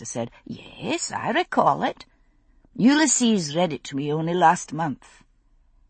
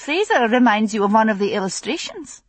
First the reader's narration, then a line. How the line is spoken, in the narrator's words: She laughed, amused